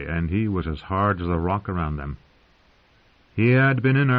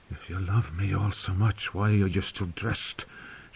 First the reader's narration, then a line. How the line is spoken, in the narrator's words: She whispered